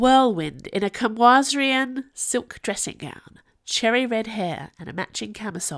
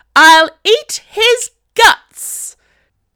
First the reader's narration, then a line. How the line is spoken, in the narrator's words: shrieked the harridan